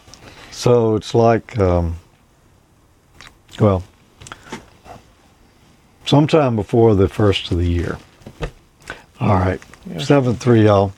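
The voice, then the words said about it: Strained, fading voice. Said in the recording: “I'm about to lose my voice... I think I have lost it.”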